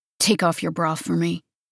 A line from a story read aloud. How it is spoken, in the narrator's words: he instructed roughly